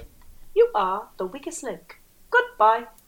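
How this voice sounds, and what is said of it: Imitates a game show host. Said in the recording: “good impression... weakest link woman”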